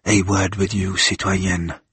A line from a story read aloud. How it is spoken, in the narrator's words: he said quietly